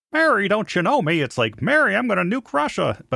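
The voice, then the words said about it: Imitates another person's voice. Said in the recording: “my Jimmy Stewart impression”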